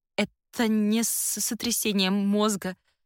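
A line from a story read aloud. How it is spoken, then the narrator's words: Stammering. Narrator (Russian): заикаясь, произношу я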